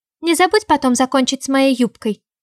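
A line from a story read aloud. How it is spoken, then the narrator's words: Shouted after someone. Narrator (Russian): выкрикнула мне в спину Тереза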